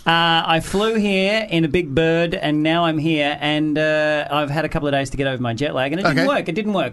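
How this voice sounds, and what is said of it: Australian accent. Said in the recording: “I got here on Friday from Australia. ... So you've lost the accent. ... No.”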